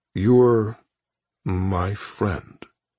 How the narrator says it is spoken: he said very slowly

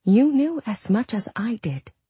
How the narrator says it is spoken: she said, trying to keep her voice calm

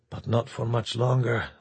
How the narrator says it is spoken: Oliveira told himself grimly

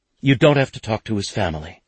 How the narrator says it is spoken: she said quickly

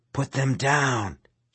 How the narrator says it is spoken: hissed

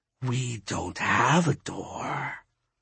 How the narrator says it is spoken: he hissed

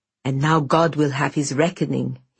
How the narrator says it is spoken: he hissed

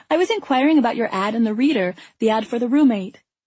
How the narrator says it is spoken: The credulousness in her cheerful voice as she happily declared

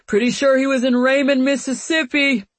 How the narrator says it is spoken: yell

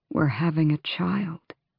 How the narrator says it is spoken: he murmured onto her hair

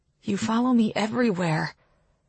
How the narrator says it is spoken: In a wobbly voice, I add

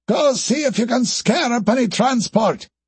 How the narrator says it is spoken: ordered Kroll, having to shout to be heard over the whistling wind

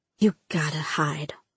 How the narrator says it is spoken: she whispered

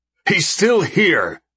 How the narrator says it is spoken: Siegfried shouts

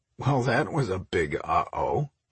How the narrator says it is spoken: Mike chuckled

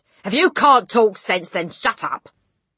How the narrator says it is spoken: the father had snapped

